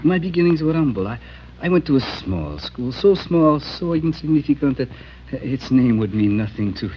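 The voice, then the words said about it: European accent. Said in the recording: “Your accent is European.”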